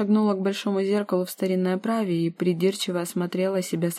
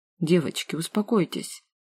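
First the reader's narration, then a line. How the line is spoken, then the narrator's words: Father pleading. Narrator (Russian): Взмолился отец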